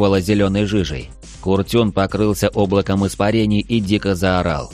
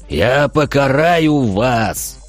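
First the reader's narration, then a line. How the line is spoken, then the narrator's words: Demon roaring. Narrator (Russian): взревел демон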